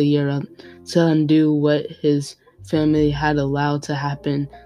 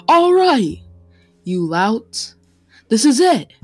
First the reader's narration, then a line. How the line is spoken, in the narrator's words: he shouted